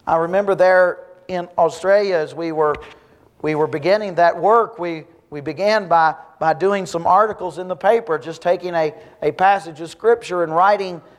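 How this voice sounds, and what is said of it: Strong Southern US accent. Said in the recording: “my strong southern accent”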